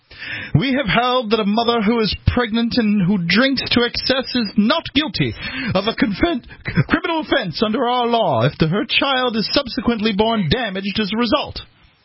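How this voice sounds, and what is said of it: Put-on British accent. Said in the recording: “That's my British accent. ... It's not my cockney.”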